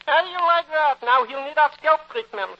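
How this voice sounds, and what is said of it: Voice speaking in a dialect. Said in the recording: “your conscience speaks with a dialect”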